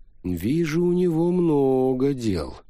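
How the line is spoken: Drawling. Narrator (Russian): протянул Фауста

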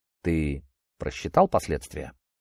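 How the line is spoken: Even, level voice. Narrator (Russian): полковник молвил ровным голосом

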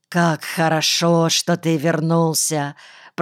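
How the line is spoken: Hoarse rasp, old man. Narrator (Russian): прохрипел старик

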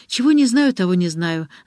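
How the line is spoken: Laughing. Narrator (Russian): засмеялась Ариадна

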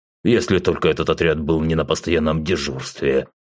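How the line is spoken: Scoffing objection. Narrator (Russian): хмыкнув, возразил Ургас

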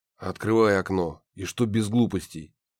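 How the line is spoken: Hoarse warning. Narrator (Russian): хрипло предупредил я

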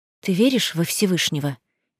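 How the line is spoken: Quiet question. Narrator (Russian): негромко спрашиваю я

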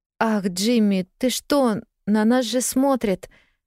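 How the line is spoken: Timid protest. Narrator (Russian): робко запротестовала

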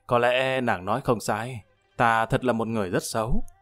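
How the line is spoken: Sighing. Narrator (Vietnamese): Lâm Văn Vinh thở dài

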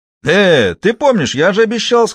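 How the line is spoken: Said, then guffawing. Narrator (Russian): сказал водитель и захохотал

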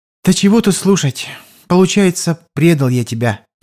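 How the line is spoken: Heavy sigh. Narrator (Russian): тяжко вздохнул Кузьма

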